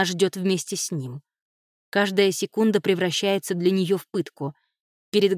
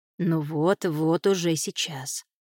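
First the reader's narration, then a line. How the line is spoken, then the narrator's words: Muttering. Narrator (Russian): бормочет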